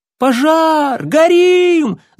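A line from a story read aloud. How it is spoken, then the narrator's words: Panicked scream. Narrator (Russian): завопил кудрявый коротышка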